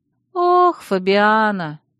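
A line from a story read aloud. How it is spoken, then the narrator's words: Sad drawl. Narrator (Russian): грустно протянула Алекс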